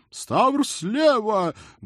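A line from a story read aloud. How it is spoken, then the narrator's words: Loud shout. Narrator (Russian): громко крикнул Центурион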